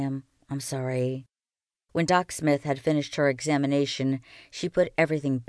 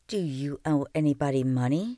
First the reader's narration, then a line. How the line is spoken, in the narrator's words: she asked